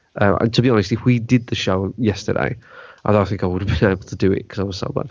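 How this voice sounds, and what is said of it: Congested, sniffly voice. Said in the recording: “my voice isn't great. I've suffered a lot of hay fever this weekend... We've heard you. You've been snurching... I don't notice how much I sniff and stuff because, yeah, it's really bad.”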